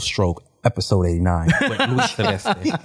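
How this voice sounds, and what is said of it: Smooth radio announcer voice. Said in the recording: “that's that radio voice right there”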